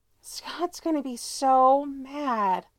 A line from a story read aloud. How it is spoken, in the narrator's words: Allison sighs, like that's the worst thing that could ever happen